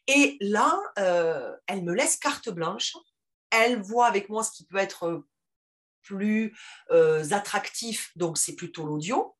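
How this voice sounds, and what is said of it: Strong Toulouse French accent. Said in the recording (French): “j'ai un accent qui est très marqué, très toulousain ... cet accent un peu trop du, du terroir”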